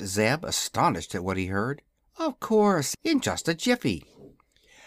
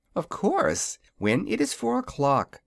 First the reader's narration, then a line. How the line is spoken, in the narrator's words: she replied, with a laugh at his startled expression